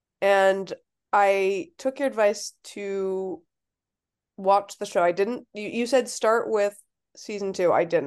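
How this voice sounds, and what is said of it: Voice sounds a little sick. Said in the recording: “I'm still a little sick, if you can't tell by my voice”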